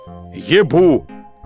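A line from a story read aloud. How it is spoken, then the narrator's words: Bull-like roar. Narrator (Russian): как бык он прорычал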